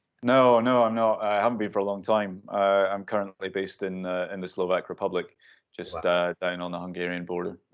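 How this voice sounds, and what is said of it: Scottish accent. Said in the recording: “that's a Scottish accent there”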